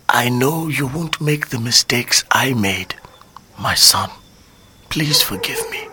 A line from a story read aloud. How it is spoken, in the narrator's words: I feel him moan and hear him whisper